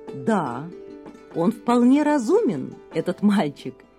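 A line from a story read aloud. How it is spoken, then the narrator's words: Laughing king. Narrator (Russian): засмеялся царь, услышав о словах Ямуначарьи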